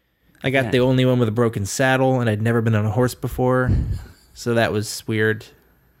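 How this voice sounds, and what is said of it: Maine-like American accent. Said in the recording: “Listen to my weird Maine-esque accent that I have.”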